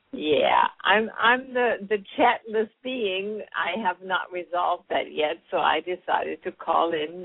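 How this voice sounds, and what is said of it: German accent. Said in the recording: “you're a Jersey girl with a German accent”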